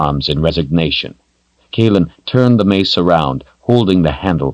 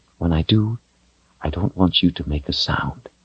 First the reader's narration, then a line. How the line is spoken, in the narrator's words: she whispered